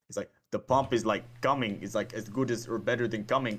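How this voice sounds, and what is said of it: Poor imitation of another person's voice. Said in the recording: “that Arnold impersonation ... like a 4 out of 10 ... Zero, -4 out of 10.”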